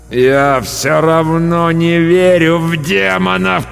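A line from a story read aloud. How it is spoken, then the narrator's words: Moaning. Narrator (Russian): простонал я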